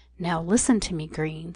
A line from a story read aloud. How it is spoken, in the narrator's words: said as calmly as he could, for the breathing was still plainly audible